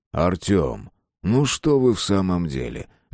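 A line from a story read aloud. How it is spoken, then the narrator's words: Gentle reproach. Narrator (Russian): мягко укорил Никулин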